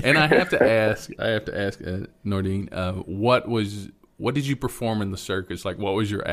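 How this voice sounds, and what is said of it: Usual voice. Nothing is said of it.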